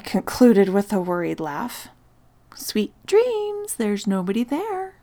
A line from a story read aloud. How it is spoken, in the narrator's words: Joanna said, a little too sweetly